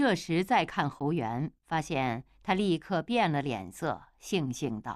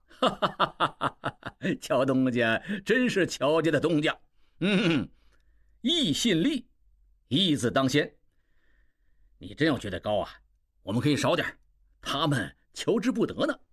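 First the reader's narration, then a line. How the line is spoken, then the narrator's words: Hearty laughter. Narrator (Chinese): 侯元大笑道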